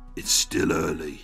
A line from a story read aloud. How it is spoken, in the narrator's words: the looming lump growls